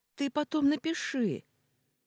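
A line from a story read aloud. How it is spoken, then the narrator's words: Shouted after someone. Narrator (Russian): крикнула Ольга мне вдогонку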